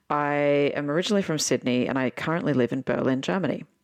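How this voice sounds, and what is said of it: Australian accent. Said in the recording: “I'm Aussie, as you can obviously tell from my accent.”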